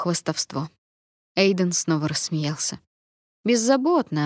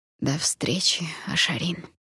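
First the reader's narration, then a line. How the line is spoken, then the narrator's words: Quiet wheeze. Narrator (Russian): тихо прохрипел он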